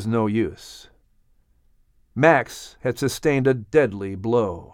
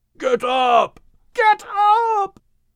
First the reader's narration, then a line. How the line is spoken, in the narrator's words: The animals were gasping and yelling to Max